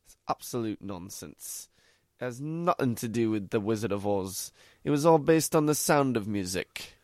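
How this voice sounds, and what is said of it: Poor attempt at English accent. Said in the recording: “You sound like Ozzy Osbourne. ... I don't do a good English accent. ... Bad impersonations”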